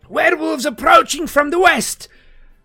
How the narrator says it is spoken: Igor ... this little elf boy with the gray blonde hair shouts into the night

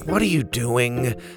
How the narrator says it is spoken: Bo sighed

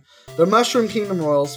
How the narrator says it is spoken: Feldsport shouts

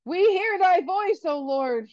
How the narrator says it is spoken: thundered triumphantly

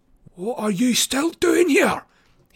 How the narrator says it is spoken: he hisses at me

